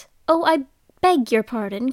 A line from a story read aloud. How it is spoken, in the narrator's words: cried Alice hastily, afraid that she hurt the poor animal's feelings